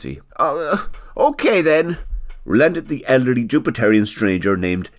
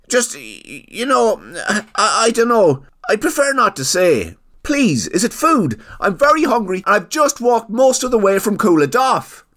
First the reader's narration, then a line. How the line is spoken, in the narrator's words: pleaded